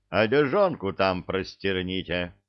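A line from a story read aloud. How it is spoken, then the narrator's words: Parting instruction. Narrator (Russian): напутствовал их Илья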